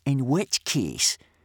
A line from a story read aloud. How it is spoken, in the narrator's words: sneered Snot-Face Snotlout, a great bullying brute of a boy